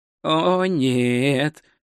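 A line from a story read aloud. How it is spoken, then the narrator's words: Moan. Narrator (Russian): простонал он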